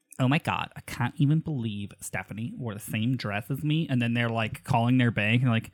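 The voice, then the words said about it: Affected vocal fry voice. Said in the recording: “fry 100% of the time ... that affectation ... it's got to be put on ... accent”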